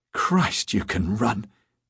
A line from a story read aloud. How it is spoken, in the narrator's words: wheezed